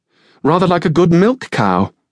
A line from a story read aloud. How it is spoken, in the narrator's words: Maddie exclaimed